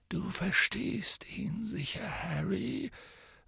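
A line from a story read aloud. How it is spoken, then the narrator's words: Soft. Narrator (German): sagte Dumbledore leise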